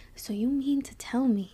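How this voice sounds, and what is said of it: Low angry whisper. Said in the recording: “When I'm mad, I start whispering. ... my whole character just goes like super low”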